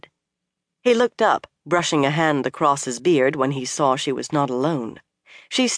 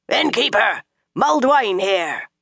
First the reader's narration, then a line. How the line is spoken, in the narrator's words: he suddenly bellowed